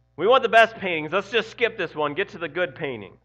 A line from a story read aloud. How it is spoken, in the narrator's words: a voice in the back of the room shouted